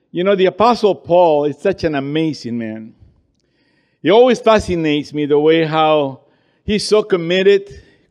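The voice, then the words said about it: Peruvian-accented English. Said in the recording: “English with an accent, that is. All the way from Lima, Peru.”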